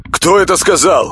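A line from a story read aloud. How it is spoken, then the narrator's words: Loud cautious question. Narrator (Russian): На всякий случай громко спросил он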